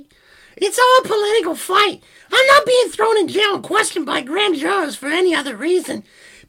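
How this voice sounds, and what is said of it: High-pitched put-on Italian accent. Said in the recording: “your wonderful, uh, probably offensive Italian accent ... you just have to do the high pitched”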